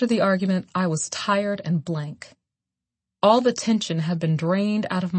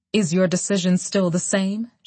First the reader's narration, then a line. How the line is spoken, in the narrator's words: she asked coldly